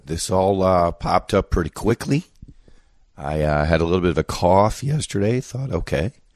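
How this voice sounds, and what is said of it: Sick, unwell-sounding voice. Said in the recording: “You can hear from my voice, I am not feeling good.”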